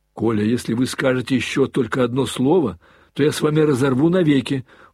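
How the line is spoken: Commanding shout. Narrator (Russian): властно крикнул Алеша

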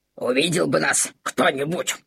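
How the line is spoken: Pleased smacking grumble. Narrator (Russian): С удовольствием причмокивая, проворчал Максимилиан

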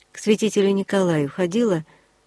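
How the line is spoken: Casual everyday question. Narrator (Russian): подруга, знавшая о моей беде, спросила будничным голосом

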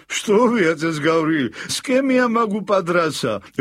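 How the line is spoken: Laughing guest. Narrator (Russian): рассмеялся гость

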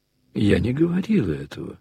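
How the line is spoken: Said calmly. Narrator (Russian): спокойно сказала Варенька

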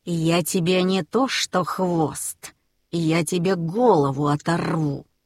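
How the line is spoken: Hiss. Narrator (Russian): прошипел Смирра

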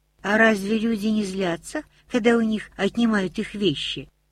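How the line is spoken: Plain question. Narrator (Russian): спросила Рони

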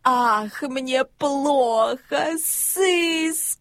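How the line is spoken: Groaning. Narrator (Russian): Мишка застонал

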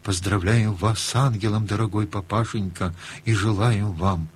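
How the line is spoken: Children whispering together. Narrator (Russian): шепотком сказали

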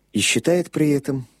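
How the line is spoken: Quiet addition. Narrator (Russian): тихо добавил священник

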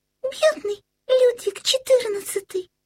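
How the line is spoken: Exclaimed. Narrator (Russian): воскликнула тут-то Карлсон

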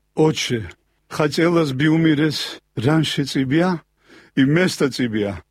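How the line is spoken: Tearful plea. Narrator (Russian): У меня выступили слезы на глазах, и я взмолился

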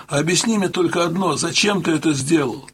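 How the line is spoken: Loud shout into ear. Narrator (Russian): В ухо погромче крикнул я

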